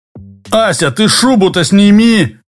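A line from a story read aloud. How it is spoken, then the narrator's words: Shout. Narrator (Russian): крикнул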